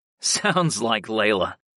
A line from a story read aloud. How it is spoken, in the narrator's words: I chuckled